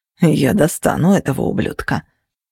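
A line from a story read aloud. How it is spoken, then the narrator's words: Grumbling. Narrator (Russian): проворчал Кости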